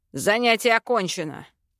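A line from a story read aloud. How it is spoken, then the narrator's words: Barked. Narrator (Russian): рявкнул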